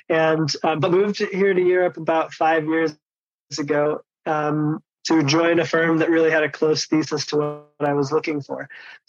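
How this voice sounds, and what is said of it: American Chicago accent. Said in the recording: “I am from Chicago in the US, if you couldn't tell by my giveaway accent”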